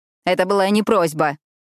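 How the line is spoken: Impatient bark. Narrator (Russian): нетерпеливо рявкнула Юлия

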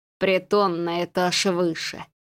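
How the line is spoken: Wry snort. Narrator (Russian): хмыкнул удильщик

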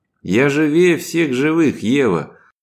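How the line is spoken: After laughing. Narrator (Russian): добавил мужчина, отсмеявшись

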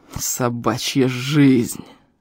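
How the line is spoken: Through gritted teeth. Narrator (Russian): процедил силач

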